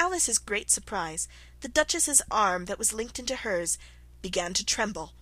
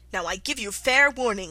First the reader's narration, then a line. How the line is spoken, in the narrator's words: shouted the Queen